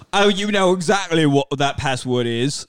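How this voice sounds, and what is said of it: Smooth British accent. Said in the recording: “a Monty Python British accent ... He's a Bond British. He's way more smooth. ... Michael Caine.”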